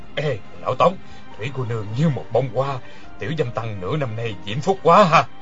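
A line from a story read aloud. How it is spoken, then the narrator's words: Low voice, laughing. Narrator (Vietnamese): Người kia hạ giọng cười nói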